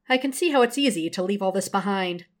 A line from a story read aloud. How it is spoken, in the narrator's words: Beverly says dryly